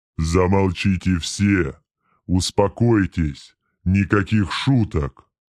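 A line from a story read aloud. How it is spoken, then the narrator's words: Thunderous demon voice. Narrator (Russian): прогремел демон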